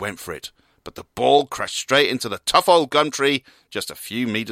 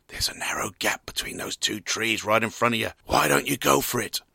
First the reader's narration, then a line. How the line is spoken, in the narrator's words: turned quietly to his colleague